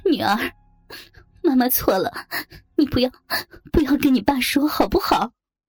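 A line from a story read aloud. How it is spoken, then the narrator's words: Crying, pleading. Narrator (Chinese): 妈妈突然间哭了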